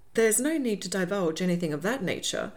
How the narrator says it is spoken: April said quickly, recoiling from hearing any intimacies to do with Miss Starling's family

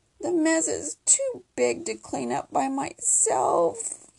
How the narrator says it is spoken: he wailed

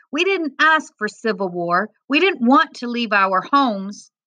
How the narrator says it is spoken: another man yelled

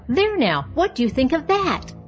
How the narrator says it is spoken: she cried out

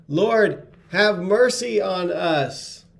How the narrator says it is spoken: they shouted

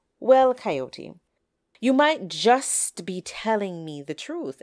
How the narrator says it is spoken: answered Chicken

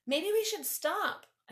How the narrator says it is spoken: I called out to Svana

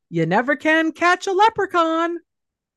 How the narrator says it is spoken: as he's sprinting through the house yelling

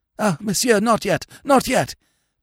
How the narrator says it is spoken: panted the priest

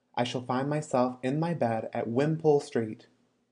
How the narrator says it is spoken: he exclaimed

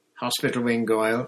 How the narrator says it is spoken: Snape said calmly

